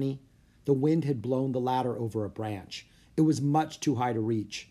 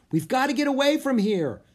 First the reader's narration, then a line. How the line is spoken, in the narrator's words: yelled Jack